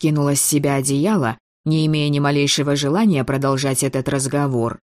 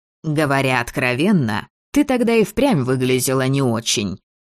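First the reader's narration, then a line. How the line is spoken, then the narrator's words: Mocking reminder. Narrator (Russian): насмешливо напомнил Мор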